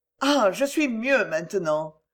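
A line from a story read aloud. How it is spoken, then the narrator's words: Said with a sigh. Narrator (French): dit-elle avec un soupir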